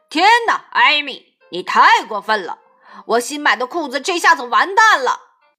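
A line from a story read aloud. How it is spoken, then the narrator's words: Shouting. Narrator (Chinese): 爸爸大喊着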